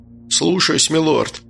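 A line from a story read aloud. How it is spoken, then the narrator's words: Gruff mutter. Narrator (Russian): буркнул здоровяк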